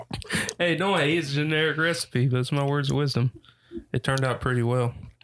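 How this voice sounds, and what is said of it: Flat, monotone, robotic-sounding voice. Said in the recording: “Your voice so monotone ... Your voice is so monotone ... very plain ... You sound like an AI. You sound like the AI that's about to go berserk in the movie.”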